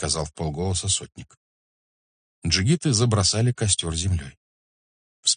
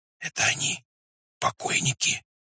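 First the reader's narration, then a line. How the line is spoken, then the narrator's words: Whisper in darkness. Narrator (Russian): прошептал в темноте чей-то голос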